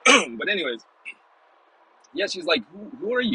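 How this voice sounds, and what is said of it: Usual voice. Nothing is said of it.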